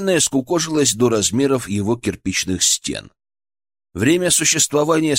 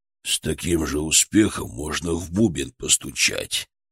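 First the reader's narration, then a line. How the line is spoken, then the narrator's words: Grumbled from a pit. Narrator (Russian): пробурчал из ямы Харитон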